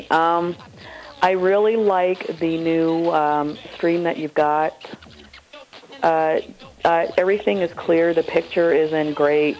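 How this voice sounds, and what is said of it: Scratchy voice from a cold. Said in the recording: “I've got a cold, so my voice is a little scratchy.”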